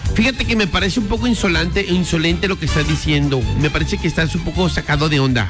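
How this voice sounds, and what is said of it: Put-on Mexican Spanish accent. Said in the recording (Spanish): “¿Cómo diríamos con acento mexicano? Póngale el acento mexicano, güey.”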